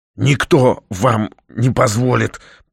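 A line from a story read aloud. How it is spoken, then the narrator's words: Hoarse rasp. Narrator (Russian): прохрипела Наталья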